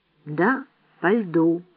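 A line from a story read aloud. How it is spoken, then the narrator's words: Slow female repetition. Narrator (Russian): медленно повторила женщина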